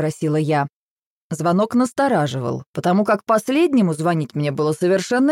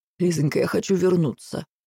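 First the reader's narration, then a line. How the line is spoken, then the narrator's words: Heavy sigh, rapid blurt. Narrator (Russian): Еще раз тяжко вздохнув, он скороговоркой выпалил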